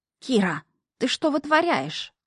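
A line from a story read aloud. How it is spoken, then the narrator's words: Alarmed hiss. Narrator (Russian): тут же зашипел встревоженный фамильяр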